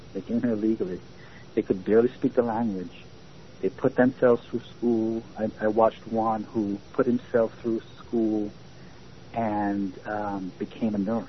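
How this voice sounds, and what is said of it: Non-native English accent. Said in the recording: “I still have my accent because I came here very late”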